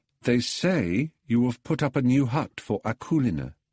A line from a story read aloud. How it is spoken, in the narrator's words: said Pelagia